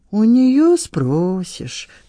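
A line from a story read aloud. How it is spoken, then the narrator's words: Drawled. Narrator (Russian): протянул Рим Петровна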